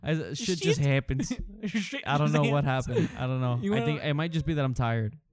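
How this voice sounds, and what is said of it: Sudden slip into country accent. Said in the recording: “My accent just went like... You went a little country.”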